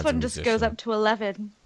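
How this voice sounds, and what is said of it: Weak put-on British accent. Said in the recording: “My British accent's really bad.”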